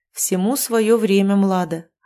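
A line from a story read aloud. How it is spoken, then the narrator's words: Plain. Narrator (Russian): ответил Видмурт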